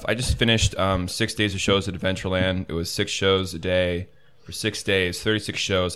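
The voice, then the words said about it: Rough, tired voice. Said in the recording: “my voice is a little rough, and I'm a little tired.”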